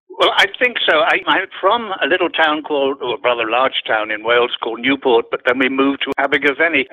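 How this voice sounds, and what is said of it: Slight accent. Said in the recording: “got a bit of an accent”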